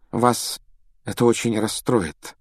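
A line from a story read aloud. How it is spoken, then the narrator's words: Unusually gentle female voice. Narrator (Russian): произнесла профессор МакГонагал непривычно мягким тоном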